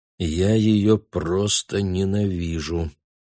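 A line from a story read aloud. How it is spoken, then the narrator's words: Quiet. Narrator (Russian): тихо проговорил он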